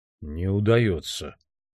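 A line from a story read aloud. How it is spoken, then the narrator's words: Hoarse voice. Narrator (Russian): хрипло сказал Хнат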